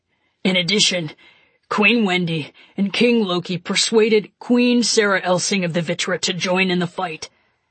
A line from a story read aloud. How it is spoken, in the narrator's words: Ludlow added in his low, craggy voice